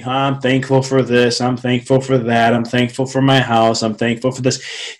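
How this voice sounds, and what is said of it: Flat monotone, low energy. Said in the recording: “You see my tone, it's very monotone. There's not a lot of energy behind that.”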